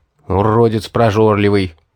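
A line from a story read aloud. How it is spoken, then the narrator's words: Grumbled mutter. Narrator (Russian): буркнул я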